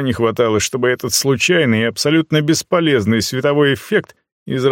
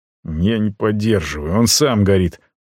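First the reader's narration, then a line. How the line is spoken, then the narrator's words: Displeased grumble. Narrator (Russian): буркнул я недовольно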